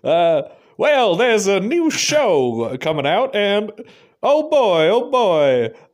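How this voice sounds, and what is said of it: Exaggerated twangy put-on accent. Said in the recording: “Both using the same accent... I'll be more twangy.”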